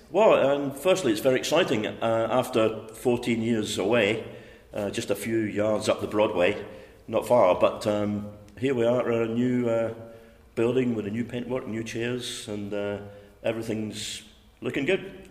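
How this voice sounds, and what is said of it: Scottish accent softened by London. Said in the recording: “you haven't always been a Londoner, and listeners may have picked that up from your accent already ... some people still pick it up, but I guess 40 plus years in South London changes your accent a little bit ... originally from Hamilton in Scotland”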